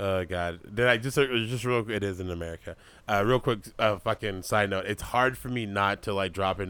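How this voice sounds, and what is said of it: Usual voice. Nothing is said of it.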